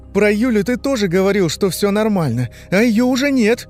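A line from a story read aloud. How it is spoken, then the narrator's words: Cried out. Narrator (Russian): вскрикнул Костя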